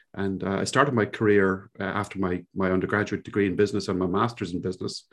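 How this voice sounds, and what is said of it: Irish Cork accent. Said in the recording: “you probably guessed immediately from my accent ... I grew up in a little place in Ireland, in the southern coast of Ireland, down in Cork ... this is indeed a Cork accent”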